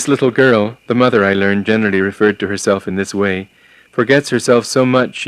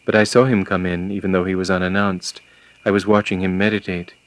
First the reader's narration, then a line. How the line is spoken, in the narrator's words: The mother, gazing at me quietly and affectionately, replied